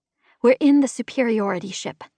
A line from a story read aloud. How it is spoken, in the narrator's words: I said